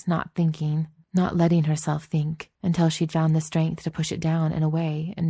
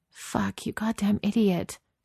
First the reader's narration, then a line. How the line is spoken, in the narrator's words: she whispered